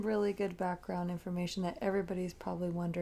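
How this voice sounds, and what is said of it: Usual voice. Nothing is said of it.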